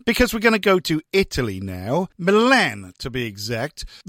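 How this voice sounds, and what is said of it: Put-on posh radio voice. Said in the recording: “putting on my posh radio voice”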